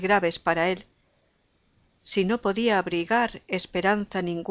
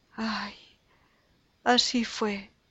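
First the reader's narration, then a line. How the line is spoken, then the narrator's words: Sobbing. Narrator (Spanish): dijo Carmen sollozando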